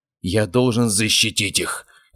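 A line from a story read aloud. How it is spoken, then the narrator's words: Growling. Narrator (Russian): рычал он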